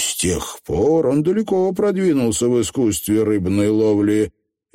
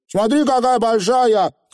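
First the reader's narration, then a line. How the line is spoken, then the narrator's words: Shout. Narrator (Russian): крикнул он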